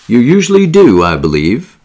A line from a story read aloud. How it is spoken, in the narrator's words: said the secretary, laughing